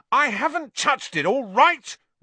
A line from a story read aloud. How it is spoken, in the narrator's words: Ron roared back